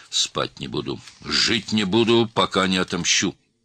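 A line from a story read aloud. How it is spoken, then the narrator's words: Said angrily. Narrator (Russian): зло сказал Джафар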